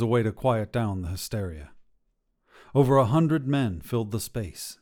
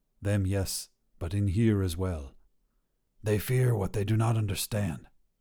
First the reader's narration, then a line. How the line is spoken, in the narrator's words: said Elazar, speaking so quietly it was mostly to himself